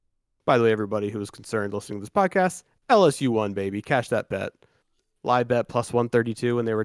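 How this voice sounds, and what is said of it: Usual voice. Nothing is said of it.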